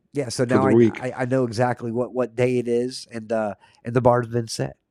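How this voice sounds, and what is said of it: Hoarse voice. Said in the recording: “I've still dealing with this cough. I'm going a little bit hoarse”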